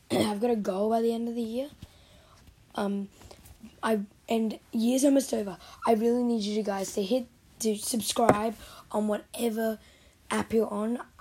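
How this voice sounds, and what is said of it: Rough, strained voice. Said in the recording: “my voice is rubbish right now”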